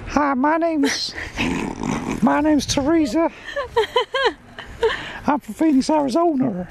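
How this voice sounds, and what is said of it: Put-on Phoenix, Arizona accent. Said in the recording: “So here comes my Phoenix, Arizona accent.”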